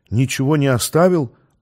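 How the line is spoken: Timid, silent to herself. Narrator (Russian): робко уточнила она про себя

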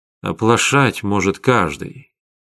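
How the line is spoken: Quiet speech. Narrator (Russian): тихо сказал Вячеслав

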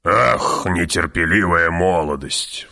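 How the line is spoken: Sighing. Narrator (Russian): вздохнул барон

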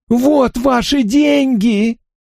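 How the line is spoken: Hoarse breathless shout. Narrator (Russian): крикнул он хрипло, задыхаясь

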